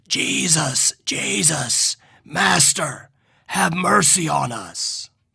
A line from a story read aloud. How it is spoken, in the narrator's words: 10 raspy voices crying out